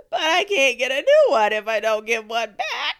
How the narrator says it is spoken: he wailed

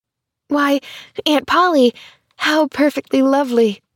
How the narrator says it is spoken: she cried

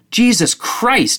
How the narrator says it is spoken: shouted

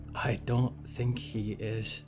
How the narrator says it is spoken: Harrow whispered

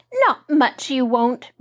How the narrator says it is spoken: Mary cried

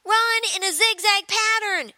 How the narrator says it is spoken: shouted Taylor

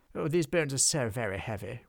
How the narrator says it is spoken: wheezed the troll

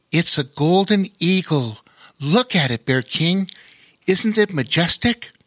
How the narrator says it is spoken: he exclaimed with obvious admiration

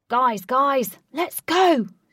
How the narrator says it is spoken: shouted the rescuing Ajax

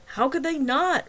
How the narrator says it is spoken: Wagner yelled back

